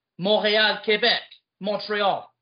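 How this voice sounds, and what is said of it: Put-on local accent for place names. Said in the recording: “But I gotta use the accent, guys. That's me.”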